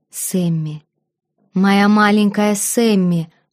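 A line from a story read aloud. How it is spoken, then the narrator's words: Moaning. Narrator (Russian): простонал Элион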